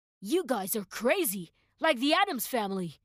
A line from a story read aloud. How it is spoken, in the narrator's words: the man exclaimed